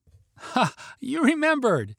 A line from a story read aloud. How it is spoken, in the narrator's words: said with a sugary smile and laugh